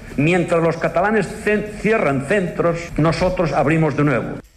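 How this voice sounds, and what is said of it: Spanish with an odd Galician-sounding accent. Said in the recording (Catalan): “tenia accent de Lleida ... va agafar una mescla d'accents molt estranya ... li barrejava els accents ... una consellera andalusa va posar accent gallec”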